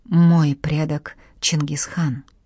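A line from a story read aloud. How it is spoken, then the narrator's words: Sad remark. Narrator (Russian): грустно отметил Девлет Гирей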